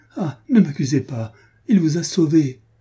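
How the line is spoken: Exclaiming. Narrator (French): s'écria-t-elle

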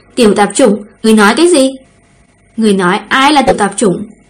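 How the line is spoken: Cold ghostly voice. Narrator (Vietnamese): Thường Diệu Túc âm thanh như quỷ mị vang lên, lạnh lùng

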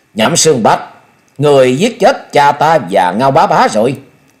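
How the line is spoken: Murderous loud shout. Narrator (Vietnamese): Thôi Dân, hai luồng sát quang bừng bừng lớn tiếng quát

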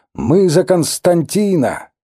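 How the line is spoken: Group shouting. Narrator (Russian): они закричали мне

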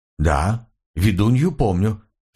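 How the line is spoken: Plain. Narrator (Russian): сказал я

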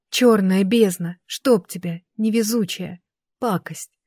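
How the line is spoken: Exhaled exclamation. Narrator (Russian): Выдохнула я

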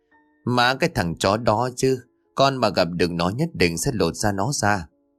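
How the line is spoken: Angry speech. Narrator (Vietnamese): Tèo tức giận lên tiếng

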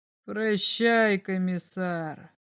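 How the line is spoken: Strange voice. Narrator (Russian): сказал он еще раз своим странным голосом

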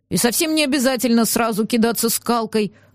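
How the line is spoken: Grumbling. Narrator (Russian): пробурчал он

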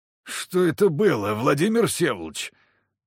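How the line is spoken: Moaning. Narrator (Russian): простонал Дорофеев

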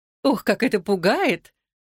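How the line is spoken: Delighted squeak. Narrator (Russian): восторженно пискнула Кармен

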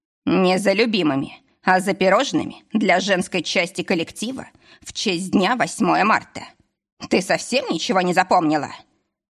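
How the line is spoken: Irritated boss. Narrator (Russian): Раздраженно уточнил босс

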